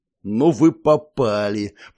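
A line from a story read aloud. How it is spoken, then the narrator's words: Growl. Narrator (Russian): прорычал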